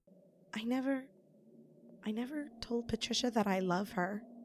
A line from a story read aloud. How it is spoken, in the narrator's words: she whispers